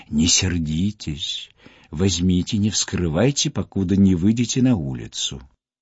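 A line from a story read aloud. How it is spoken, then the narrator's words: Soft whisper. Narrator (Russian): голос графини, шептавшей тихонько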